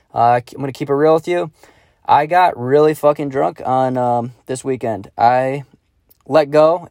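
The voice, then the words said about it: Raspy, partly lost voice. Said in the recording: “My voice is a little raspy um, in today's episode. I kind of lost my voice”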